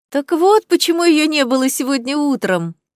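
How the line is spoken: Laughing. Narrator (Russian): засмеялась Клоэ

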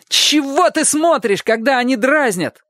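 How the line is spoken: Wild, strange yell. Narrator (Russian): заорал он не своим голосом

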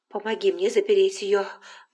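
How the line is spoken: Breathless. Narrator (Russian): выдохнула она

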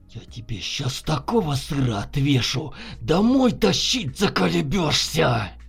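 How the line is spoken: Barely restrained angry hiss. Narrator (Russian): Едва сдерживаясь, прошипел Дремов

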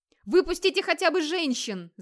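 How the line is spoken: Yelling. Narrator (Russian): заорал он

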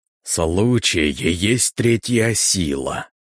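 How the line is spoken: Creaky voice. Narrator (Russian): проскрипел он

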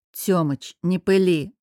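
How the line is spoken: Snort. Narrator (Russian): фыркнул я

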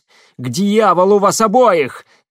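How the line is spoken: Shout. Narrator (Russian): крикнула Шахиня

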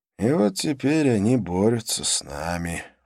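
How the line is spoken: Gloomy conclusion. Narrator (Russian): уныло заключил проводник

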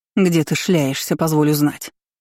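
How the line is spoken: Angry growl. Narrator (Russian): рыкнула Элира Ридалейн

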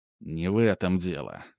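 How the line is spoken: Quiet. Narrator (Russian): тихо сказал Ремезов

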